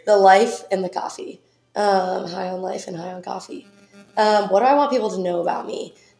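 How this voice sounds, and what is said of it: Hoarse voice. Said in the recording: “I sound super hoarse ... I always am losing my voice”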